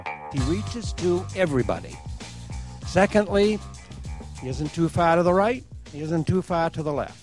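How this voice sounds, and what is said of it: New England accent. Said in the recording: “Do you recognize that accent? ... that New England accent you just heard”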